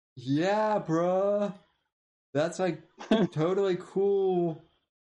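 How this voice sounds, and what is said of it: Annoying douchey theater-kid voice. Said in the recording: “I love your Owen voice. ... That's how I do the Owen voice. I just think back to the most annoying douchey theater kid I can think of from my high school that sounded exactly like Owen”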